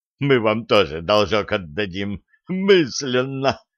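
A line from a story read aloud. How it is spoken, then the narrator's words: Sobbing through laughter. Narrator (Russian): прорыдал сквозь смех Бывалини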